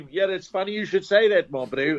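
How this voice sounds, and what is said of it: Put-on South African accent. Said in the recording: “we've heard that you can do an exceptionally brilliant South African accent.”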